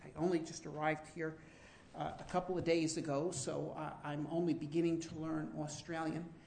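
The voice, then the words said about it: Non-Australian accent. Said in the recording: “as you can probably hear from my accent, that I am not from Australia”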